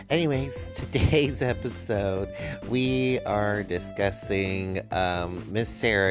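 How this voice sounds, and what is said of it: Usual voice. Nothing is said of it.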